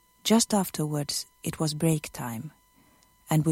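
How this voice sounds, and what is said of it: Usual voice. Nothing is said of it.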